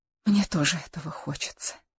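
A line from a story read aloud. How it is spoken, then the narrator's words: Barely audible whisper. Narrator (Russian): едва слышно прошептала Каролина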